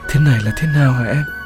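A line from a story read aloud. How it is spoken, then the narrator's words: Trembling voice. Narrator (Vietnamese): Giọng Thành run run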